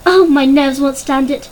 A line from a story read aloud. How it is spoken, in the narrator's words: cried Mrs